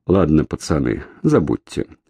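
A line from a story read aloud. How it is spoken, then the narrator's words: Sighing. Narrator (Russian): вздохнул и сказал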